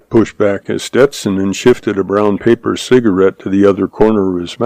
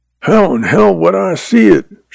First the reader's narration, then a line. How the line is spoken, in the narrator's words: Shorty growled